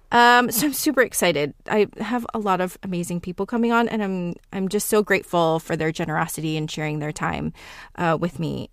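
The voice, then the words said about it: Talking very fast. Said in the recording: “I'm talking really fast.”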